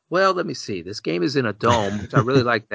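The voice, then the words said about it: Imitates another person's voice. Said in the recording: “my best Rob Norton impression”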